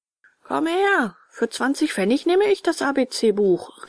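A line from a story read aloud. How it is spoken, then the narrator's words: Ragman calling out. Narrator (German): rief ein Lumpenmann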